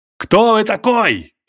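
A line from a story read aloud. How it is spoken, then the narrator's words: Shout. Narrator (Russian): крикнул Максим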